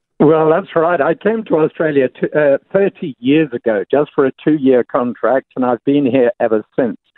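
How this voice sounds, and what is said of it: Slight English accent. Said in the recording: “a little of your English accent”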